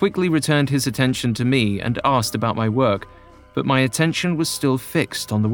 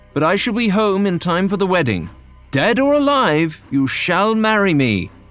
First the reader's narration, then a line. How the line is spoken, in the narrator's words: John shouted as the train moved forward